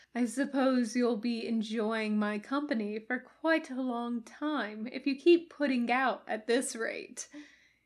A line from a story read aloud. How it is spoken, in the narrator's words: he chuckled to himself